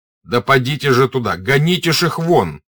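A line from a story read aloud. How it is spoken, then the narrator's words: Officer shouting. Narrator (Russian): крикнул старший офицер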